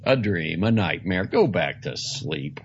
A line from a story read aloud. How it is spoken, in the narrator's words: said Father Stone irritably